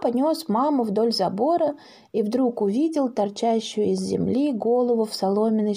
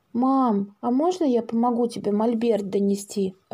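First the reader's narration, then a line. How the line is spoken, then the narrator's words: Timid question. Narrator (Russian): робко спросил Паша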